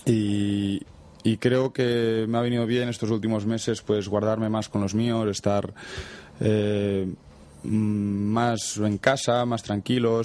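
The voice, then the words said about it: Catalan accent in Spanish. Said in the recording (Spanish): “acento catalán? ... también es muy evidente”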